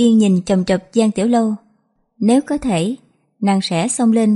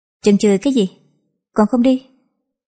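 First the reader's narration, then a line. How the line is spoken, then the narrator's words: Cold. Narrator (Vietnamese): Quan sai phía sau ... lạnh lùng nói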